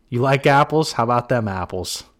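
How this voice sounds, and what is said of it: Put-on Boston accent. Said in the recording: “the Matt Damon Boston accent ... With my masshole accent ... That's not even my best version”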